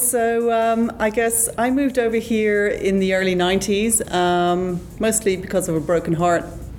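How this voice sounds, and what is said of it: Slight non-Australian accent. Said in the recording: “there's a bit of an accent there. I mean, we're here in Australia, but Australia is not your home country.”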